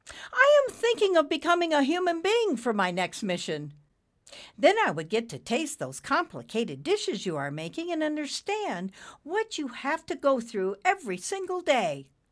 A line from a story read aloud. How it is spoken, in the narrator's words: Nimbus blurted out